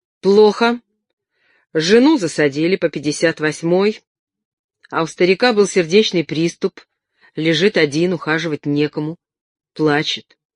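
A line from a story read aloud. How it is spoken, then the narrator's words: Haughty, spiteful, clipped. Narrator (Russian): приняла надменный вид и злобно отчеканила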